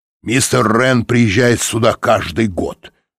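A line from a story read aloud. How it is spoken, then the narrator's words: Snorted. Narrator (Russian): фыркнул Тибинг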